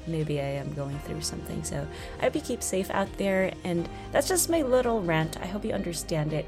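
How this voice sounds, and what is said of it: Congested, sick-sounding voice. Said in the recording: “my voice sounds super kind of weird. I have some runny nose right now, so I apologize if I sound sick.”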